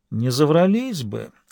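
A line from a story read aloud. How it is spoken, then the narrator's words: Thoughtful reply. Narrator (Russian): задумчиво ответил Лабрюер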